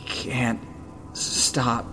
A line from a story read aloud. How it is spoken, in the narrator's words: he hissed at her